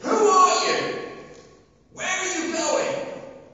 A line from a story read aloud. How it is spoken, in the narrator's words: he shouts out, he says